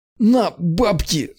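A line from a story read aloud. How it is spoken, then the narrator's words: Man straining to speak. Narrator (Russian): с трудом выдавил мужик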